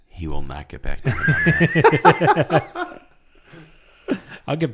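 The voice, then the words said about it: Mock narrator voice. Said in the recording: “Narrator voice.”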